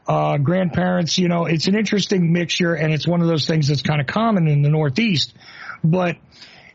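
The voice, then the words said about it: Northeastern Italian-American accent. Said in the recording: “there is a twist on that accent that's also present with me where you can hear this guy's probably Italian, Sicilian, something ... A little bit of the influence on our cadence”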